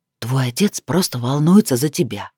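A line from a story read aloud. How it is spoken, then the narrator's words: Private whisper. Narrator (Russian): произнес он уже шепотом, чтобы слышала только я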